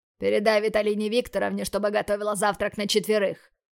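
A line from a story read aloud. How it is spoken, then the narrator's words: Growled. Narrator (Russian): Рыкнул Майяр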